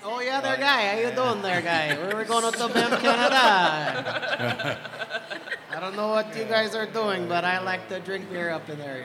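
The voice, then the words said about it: Cartoony put-on Canadian accent. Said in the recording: “Canadian accent ... I don't know if that's Canadian. ... It's French-Canadian. ... That sounds more like Monty Python. ... It's definitely cartoony.”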